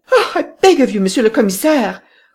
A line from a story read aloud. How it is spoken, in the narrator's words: cried Madame Renaud